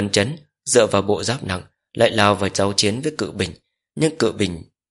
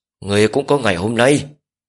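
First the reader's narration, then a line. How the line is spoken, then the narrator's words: Loud shout. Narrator (Vietnamese): Hứa Đại Lực hét lớn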